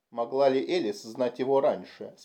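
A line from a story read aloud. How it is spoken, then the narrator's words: Plain. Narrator (Russian): спросил Бакман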